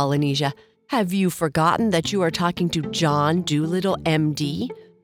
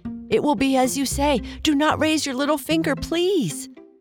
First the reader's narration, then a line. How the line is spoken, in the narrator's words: he cried